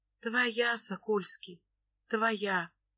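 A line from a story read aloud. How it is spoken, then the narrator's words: Whispering with soft giggles. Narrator (Russian): Шепчет невеста, тихонько посмеиваясь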